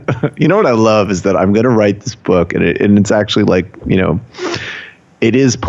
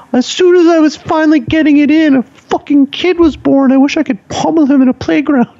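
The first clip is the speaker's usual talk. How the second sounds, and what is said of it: Imitates another person's voice. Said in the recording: “that's a really great impression”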